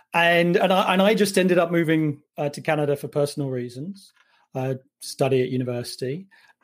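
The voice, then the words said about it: Non-Canadian accent. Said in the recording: “You might guess from my accent, wasn't born in Canada.”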